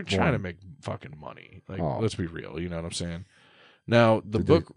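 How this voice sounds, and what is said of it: Usual voice. Nothing is said of it.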